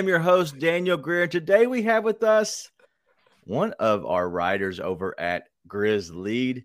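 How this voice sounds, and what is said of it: Usual voice. Nothing is said of it.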